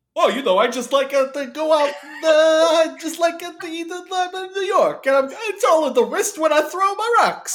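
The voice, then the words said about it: Exaggerated weird New York accent. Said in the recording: “the very, very weird New York accent ... It's so much worse in this movie”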